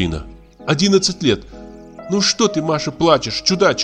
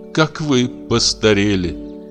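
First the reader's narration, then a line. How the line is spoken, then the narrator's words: Through tears. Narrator (Russian): Сквозь слезы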